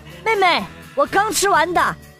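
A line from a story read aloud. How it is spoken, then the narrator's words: Excited boy shouting. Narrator (Chinese): 哥哥兴奋地朝着我喊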